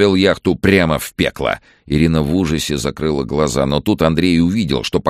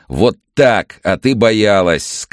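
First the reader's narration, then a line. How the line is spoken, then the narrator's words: Grinning shout. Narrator (Russian): скалясь прокричал Андрей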